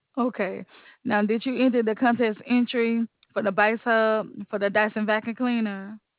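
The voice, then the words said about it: Slight Southern American accent. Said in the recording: “You sound a little Southern.”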